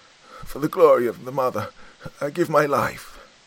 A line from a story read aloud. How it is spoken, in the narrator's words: he cried